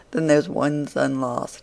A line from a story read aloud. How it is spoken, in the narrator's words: she said it in a very mournful tone, as one greatly concerned at it